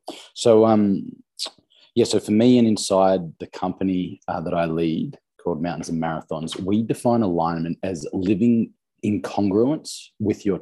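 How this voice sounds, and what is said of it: Australian accent. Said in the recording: “you're the first Australian accent”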